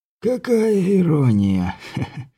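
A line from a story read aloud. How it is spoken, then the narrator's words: Soft laugh. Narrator (Russian): Тихо рассмеялся он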